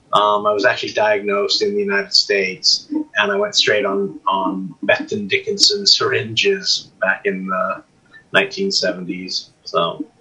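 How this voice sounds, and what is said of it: Non-local accent. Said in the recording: “you probably hear from my accent, I'm not originally from here”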